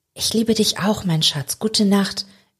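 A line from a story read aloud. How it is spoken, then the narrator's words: Soft. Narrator (German): erwidert Cheryl leise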